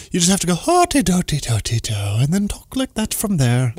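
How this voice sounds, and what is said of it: Poor put-on Irish accent. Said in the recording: “If you want to do an Irish accent ... And it sounds terrible”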